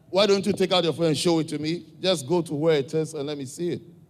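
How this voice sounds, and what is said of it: African accent. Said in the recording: “my accent, my African accent”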